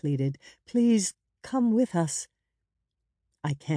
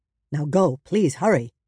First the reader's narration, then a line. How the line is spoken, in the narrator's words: he said firmly